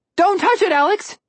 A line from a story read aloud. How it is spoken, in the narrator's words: Connor shouted